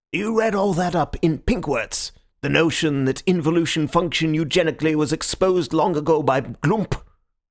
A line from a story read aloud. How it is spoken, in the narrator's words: I replied quite scornfully